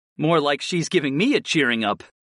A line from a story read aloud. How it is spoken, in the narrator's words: I laughed